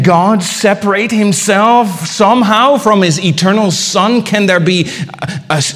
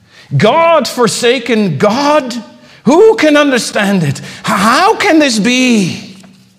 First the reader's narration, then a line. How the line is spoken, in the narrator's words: he cried out